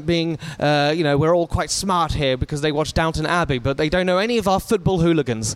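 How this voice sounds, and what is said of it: English accent. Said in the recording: “as you can tell by my accent ... the connotations of the English accent”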